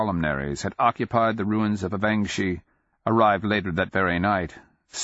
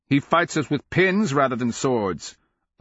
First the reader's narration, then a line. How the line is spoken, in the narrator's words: Ngonkakol exclaimed